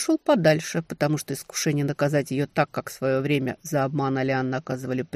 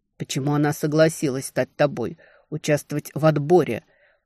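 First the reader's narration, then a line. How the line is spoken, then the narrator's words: Restrained angry growl. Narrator (Russian): вытолкнул из себя, прорычал, справившись с желанием придушить девчонку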